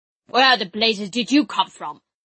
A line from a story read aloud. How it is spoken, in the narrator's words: Drake snarled